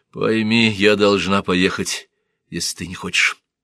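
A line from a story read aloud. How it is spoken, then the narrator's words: Soft. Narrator (Russian): мягко сказала она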